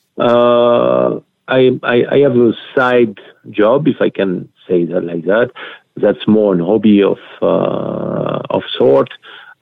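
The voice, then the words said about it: Strong non-native English accent. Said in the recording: “people have trouble to get my word through because of my accent ... that's just a question of accent”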